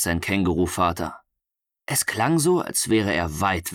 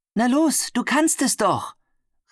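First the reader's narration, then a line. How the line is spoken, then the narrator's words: Kangaroo mother calling. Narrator (German): rief seine Känguru-Mutter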